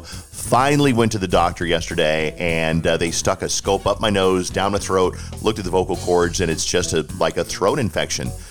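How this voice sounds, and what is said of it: Hoarse voice with throat clearing. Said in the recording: “I'm a little bit hoarse, and I keep clearing my throat, and I keep coughing because I've got this nasty throat infection.”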